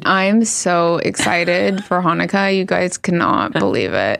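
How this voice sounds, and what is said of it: Flat sarcastic monotone. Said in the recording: “Can't you tell my monotone? ... You sound like Kourtney Kardashian.”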